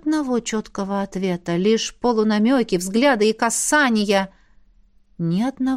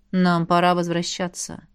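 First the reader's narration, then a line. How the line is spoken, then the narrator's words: Tired. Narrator (Russian): устало добавил император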